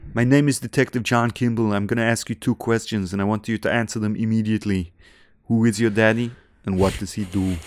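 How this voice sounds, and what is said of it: Arnold Schwarzenegger impression. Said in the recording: “I thought I'd start with a little impression ... that impression ... Arnold Schwarzenegger”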